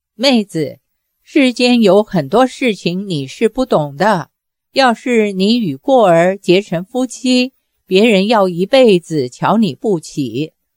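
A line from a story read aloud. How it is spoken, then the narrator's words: Sighing. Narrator (Chinese): 叹了口气，说道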